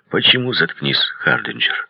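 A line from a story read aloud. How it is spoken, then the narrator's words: Quiet, commanding. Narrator (Russian): тихо и повелительно сказал я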